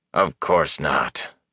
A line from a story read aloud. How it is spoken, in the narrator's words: Elias growled